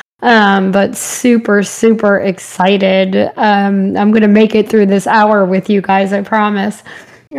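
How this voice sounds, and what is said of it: Strained, fading voice. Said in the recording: “I'm already losing my voice. I've been talking too much.”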